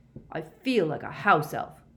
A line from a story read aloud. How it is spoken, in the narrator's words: grumbled Ron